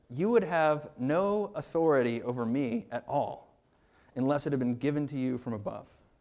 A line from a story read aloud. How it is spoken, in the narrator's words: Christ responds calmly and he says